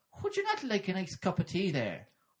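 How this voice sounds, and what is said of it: Put-on Irish lilt. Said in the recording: “Think of something to say in an Irish lilt.”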